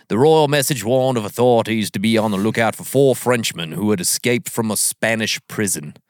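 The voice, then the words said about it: Put-on accent reading a quote. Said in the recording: “I don't know if that's the right accent ... pretty much”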